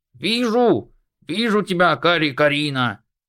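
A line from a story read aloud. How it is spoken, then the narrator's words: Sudden laughing shout. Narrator (Russian): ни с того ни с сего рассмеется и крикнет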